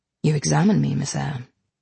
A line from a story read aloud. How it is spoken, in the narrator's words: said he